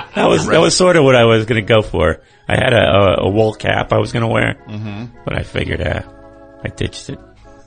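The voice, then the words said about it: Failing raspy voice like Burgess Meredith. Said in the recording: “Oh, you sounded. ... My voice is going down. ... Burgess Meredith.”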